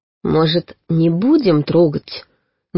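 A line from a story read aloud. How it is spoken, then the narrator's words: Hesitant suggestion. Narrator (Russian): неуверенно предложила я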